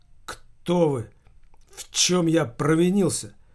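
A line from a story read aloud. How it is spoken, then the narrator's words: Young man, strained voice. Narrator (Russian): сдавленным голосом произнес молодой человек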